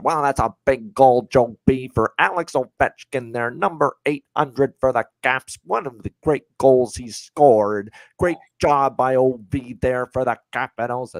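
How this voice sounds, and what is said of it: Craig Laughlin impression, hockey analyst voice. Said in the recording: “my Craig Laughlin impression ... if you know Craig Laughlin, the longtime analyst of the Capitals, you know his voice. And that's probably what he would sound like there calling the game”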